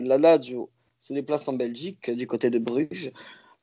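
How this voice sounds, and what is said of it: Put-on Belgian French accent. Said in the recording (French): “Ton petit accent, belge. ... j'essaie de faire un. ... accent”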